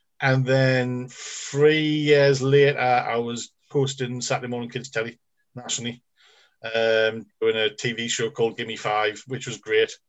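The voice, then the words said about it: Geordie accent with speech impediment. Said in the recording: “I've got a really bad speech impediment. I can't say free properly, and I've got a Geordie accent.”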